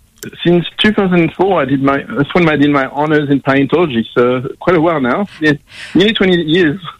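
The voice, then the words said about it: Slight French accent. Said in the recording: “I can hear a slight accent. ... French. ... I thought it was French, yes.”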